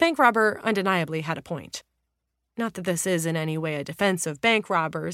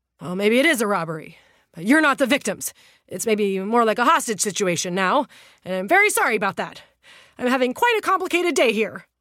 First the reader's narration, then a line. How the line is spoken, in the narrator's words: thinking better of it and panting